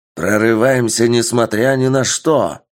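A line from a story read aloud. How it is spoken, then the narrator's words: Shouted. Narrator (Russian): прокричал командир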